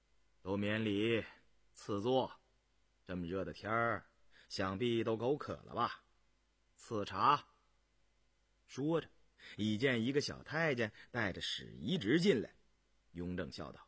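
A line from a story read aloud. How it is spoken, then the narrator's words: Calm, indifferent. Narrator (Chinese): 雍正淡淡说着，含笑道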